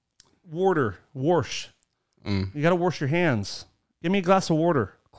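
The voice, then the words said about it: Put-on Pennsylvania accent. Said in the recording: “what's the Pennsylvania accent?”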